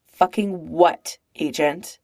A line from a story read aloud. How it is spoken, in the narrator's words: Clint snaps